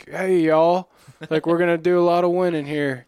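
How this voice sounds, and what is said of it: Put-on Southern accent. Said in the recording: “he's got a fake Southern accent”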